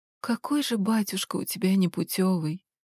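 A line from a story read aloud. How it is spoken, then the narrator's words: Whispered. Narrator (Russian): шептала я крохотному Мишеньке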